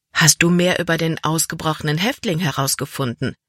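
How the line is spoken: Plain. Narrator (German): fragte sie

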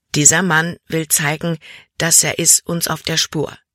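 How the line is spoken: Plain. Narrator (German): sagte Jordan

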